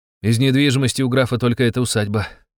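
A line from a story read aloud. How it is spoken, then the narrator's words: Sighing. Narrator (Russian): вздохнул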